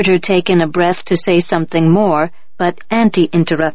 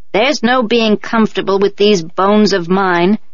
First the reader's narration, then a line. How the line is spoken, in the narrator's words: the old woman grumbled